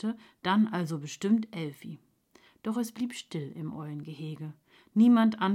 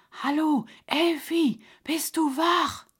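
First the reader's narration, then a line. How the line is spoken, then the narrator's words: Whisper. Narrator (German): flüsterte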